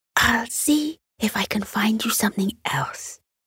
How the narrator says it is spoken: whispered

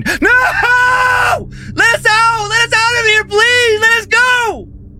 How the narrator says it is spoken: she started screaming

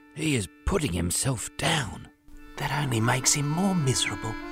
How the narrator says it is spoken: Hoover whispered

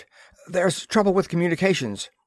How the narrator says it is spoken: he gasped

